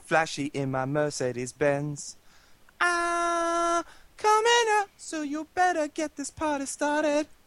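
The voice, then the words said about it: Singing in a grating falsetto. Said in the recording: “Whenever Z goes up into the falsetto, it just, like, I want to, like, just stuff things into my ears.”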